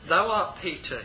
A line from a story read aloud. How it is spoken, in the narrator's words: he says